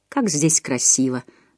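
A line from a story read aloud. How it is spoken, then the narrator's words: Sighed. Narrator (Russian): вздохнула Нелл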